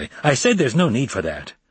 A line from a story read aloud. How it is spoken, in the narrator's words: she told him irritably